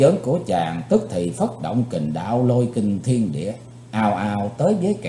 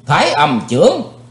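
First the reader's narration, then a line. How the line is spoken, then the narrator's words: Loud shout. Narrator (Vietnamese): Chí Tôn quát lớn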